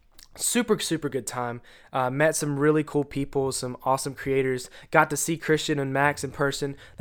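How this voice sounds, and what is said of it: Congested, stuffed-up voice. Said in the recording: “probably hear in my voice, I'm kind of congested, kind of stopped up”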